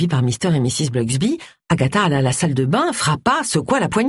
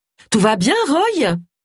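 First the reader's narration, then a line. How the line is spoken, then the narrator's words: Shouted. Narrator (French): cria-t-elle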